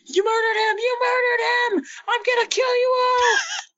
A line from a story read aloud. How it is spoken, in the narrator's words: screaming her head off about saying